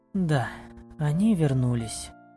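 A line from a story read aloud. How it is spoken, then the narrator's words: Relieved sigh, elf woman. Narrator (Russian): облегченно вздохнула эльфийка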